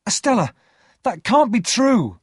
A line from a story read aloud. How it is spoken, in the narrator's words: cried